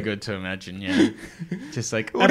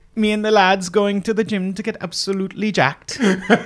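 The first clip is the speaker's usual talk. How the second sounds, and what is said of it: Put-on sing-song Welsh accent. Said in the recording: “I love the Welsh accent. The idea of like these big fucking idiots with their funny little sing-song accent.”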